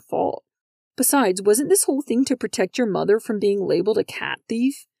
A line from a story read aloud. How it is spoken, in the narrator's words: Nix whimpered